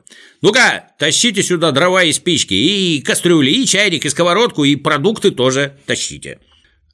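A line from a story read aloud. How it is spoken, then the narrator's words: Shout. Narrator (Russian): закричал коротышкам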